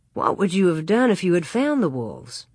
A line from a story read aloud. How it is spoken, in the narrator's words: Manly asked